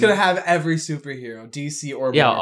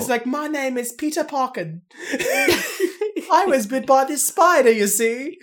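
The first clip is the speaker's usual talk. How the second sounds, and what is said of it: Put-on accent. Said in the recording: “What is the accent?”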